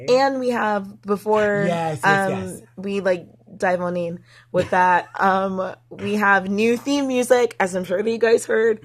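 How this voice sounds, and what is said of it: Weak, sick voice, nearly gone. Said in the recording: “my voice isn't there anymore ... Just a sick”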